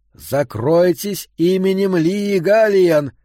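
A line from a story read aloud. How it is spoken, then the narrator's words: Roaring. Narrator (Russian): проревела Клаудия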